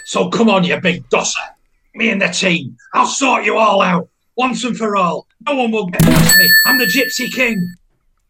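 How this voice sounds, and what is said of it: Imitates another person's voice. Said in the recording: “a point for the impression. I think that's really good.”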